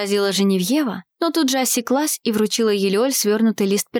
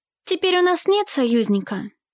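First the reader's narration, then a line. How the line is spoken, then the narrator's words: Sighing. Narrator (Russian): вздохнула Елеоль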